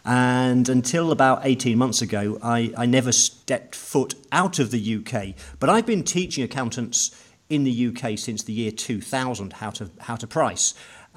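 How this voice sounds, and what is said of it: British accent. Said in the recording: “I'm from the UK, which you can tell from the accent.”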